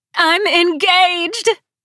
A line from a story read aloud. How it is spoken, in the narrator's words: Gabby Montoya screamed through the speakers